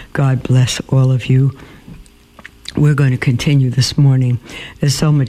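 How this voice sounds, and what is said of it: Slightly hoarse voice. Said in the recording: “I came down with a whopper of a flu... I'm probably still a little hoarse”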